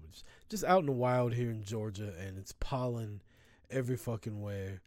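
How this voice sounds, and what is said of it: Raspy, hoarse voice. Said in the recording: “I apologize for my raspy fucking voice ... my allergies are kicking my ass”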